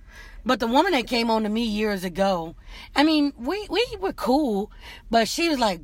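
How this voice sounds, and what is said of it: Louisiana accent. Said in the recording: “Your voice and that accent, that Louisiana right. accent”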